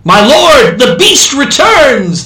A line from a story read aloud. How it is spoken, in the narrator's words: the American shouted